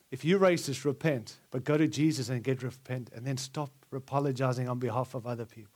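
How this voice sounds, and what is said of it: Non-American foreign accent. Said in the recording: “I'm an American, even though I have an accent.”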